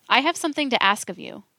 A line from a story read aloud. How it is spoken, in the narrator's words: said